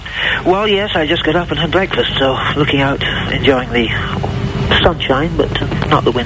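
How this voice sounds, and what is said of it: Scottish accent. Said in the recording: “You're not posh, you're Scottish.”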